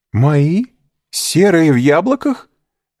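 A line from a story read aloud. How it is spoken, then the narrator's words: Exclaiming. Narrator (Russian): воскликнула госпожа Данглар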